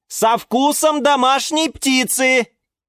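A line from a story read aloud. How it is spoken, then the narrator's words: Shouting. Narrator (Russian): крикнул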